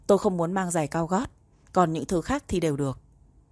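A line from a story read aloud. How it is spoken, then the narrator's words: Cold. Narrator (Vietnamese): Giang Ninh Phiến lạnh lùng nói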